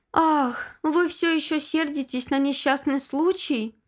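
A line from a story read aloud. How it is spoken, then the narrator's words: Sighing. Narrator (Russian): вздохнула Шейла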